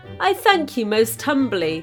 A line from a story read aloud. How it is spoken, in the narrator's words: answered the vizier, doing his best not to laugh